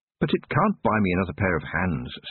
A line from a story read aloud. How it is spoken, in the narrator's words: said Tiffany